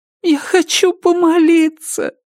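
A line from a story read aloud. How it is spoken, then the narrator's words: Childlike plaintive. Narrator (Russian): по-детски жалобно сказала она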